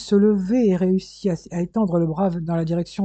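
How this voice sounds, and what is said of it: Usual voice. Nothing is said of it.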